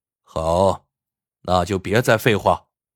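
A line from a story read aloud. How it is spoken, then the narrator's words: Cold. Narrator (Chinese): 娃娃冷冷的说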